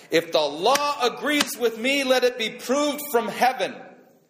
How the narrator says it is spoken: Rabbi Eliezer was at his wit's end, and finally he shouted out

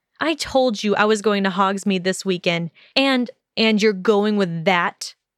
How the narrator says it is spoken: He growled, as though the notion revolted him and left a sour taste on his tongue

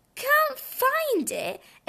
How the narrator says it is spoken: exclaimed Robin

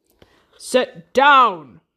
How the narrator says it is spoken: roars the captain

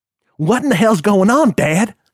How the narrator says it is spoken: panted

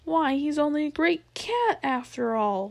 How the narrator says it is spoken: one cried out

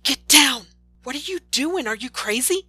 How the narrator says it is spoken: teachers shout

